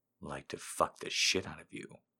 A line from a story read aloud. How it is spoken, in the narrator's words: I whispered